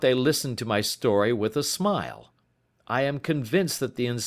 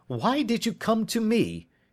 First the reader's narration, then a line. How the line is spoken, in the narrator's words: cried